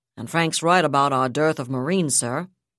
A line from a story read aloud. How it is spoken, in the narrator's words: Naomi Kaplan said a bit grimly